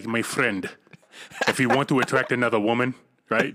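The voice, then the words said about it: Imitated accent, self-described as horrible. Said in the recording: “that accent ... that was a horrible accent”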